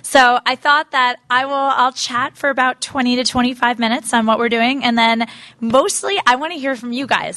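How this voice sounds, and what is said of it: Strained, fading voice. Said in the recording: “I'm losing my voice a bit because I'm halfway through a six-week book tour”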